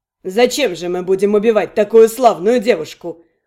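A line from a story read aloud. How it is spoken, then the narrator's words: Amused snort. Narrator (Russian): хмыкнул Эликс мне в макушку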